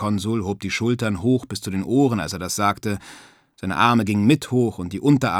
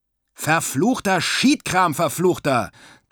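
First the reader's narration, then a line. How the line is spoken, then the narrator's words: Angry shouting. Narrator (German): schrie der Skipper wütend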